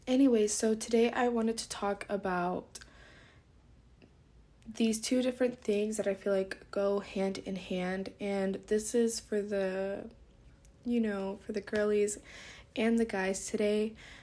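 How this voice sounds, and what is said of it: Groggy, just-woken-up voice. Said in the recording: “my voice is a little bit groggy”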